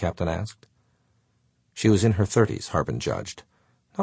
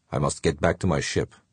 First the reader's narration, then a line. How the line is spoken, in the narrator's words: said curtly